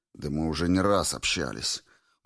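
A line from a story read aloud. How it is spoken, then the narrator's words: Miserable mutter. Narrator (Russian): буркнул несчастный лось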